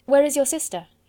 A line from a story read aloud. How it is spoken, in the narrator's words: he said hastily